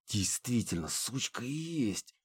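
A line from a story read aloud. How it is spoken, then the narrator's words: Hissing. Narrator (Russian): прошипела Харми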